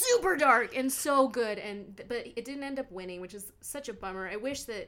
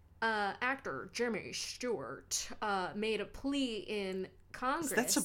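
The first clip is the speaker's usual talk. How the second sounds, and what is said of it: Poor imitation of another person's voice. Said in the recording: “Is that a Jimmy Stewart impression? ... Yeah, wasn't it so bad? ... I can't do it.”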